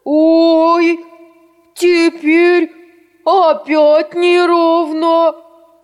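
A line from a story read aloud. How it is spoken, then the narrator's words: Shouting bear cubs. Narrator (Russian): закричали медвежата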